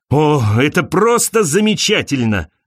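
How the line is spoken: Exclamation. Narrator (Russian): воскликнул он

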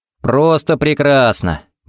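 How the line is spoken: Cheerful reply. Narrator (Russian): бодро отвечал ей Харри

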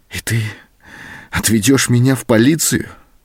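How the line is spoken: Trembling voice question. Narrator (Russian): спросила она дрогнувшим голосом

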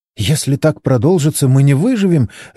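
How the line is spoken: Babbling. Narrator (Russian): лепетала Моника

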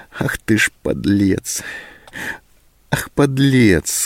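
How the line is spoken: Sobbing to herself. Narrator (Russian): сказала она себе, всхлипнув

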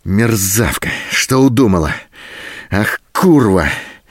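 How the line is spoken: Hoarse furious rasping. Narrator (Russian): В то остывающем, то снова вспыхивающем бешенстве хрипел Голубин

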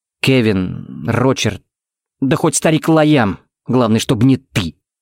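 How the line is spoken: Through clenched teeth. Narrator (Russian): процедил Тикс

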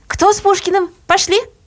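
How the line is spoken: Panting shout. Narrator (Russian): крикнула, отдуваясь

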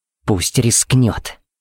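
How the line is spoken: Hiss. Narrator (Russian): прошипела Пепси

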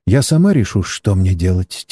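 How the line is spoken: Quiet woman's voice. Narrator (Russian): тихо произнесла китаянка

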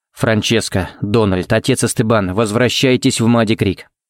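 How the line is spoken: As even and calm as possible. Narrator (Russian): сказал он самым ровным и спокойным тоном, на какой был способен

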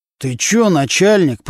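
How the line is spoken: Through gritted teeth. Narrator (Russian): процедил сквозь зубы Нечипаренко

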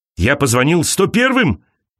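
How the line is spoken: Shouting. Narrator (Russian): кричал он

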